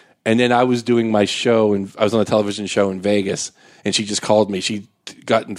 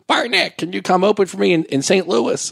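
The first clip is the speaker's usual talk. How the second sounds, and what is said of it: Imitates a woman's voice, poorly. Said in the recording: “your impression ... how terrible it is ... my female impression”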